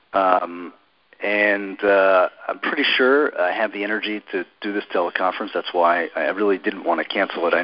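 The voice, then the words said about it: Sick, congested voice. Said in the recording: “as you might be able to hear in my voice, I'm struggling with a really bad cold today”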